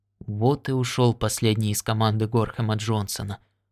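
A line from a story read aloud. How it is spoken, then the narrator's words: Muttered. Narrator (Russian): пробормотал Уайти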